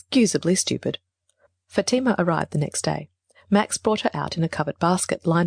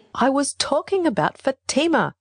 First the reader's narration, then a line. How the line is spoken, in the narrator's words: cried in a rage